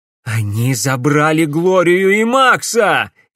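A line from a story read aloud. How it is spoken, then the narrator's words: Furious shout. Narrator (Russian): яростно крикнул Алекс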